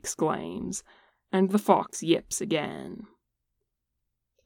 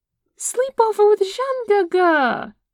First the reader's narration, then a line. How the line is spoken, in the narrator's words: Ayuan exclaims